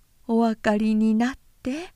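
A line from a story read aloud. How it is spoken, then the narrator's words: Woman laughing while speaking. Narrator (Japanese): その婦人は玄関でこう言いながら笑った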